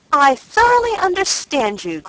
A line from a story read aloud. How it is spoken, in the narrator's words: cried Mrs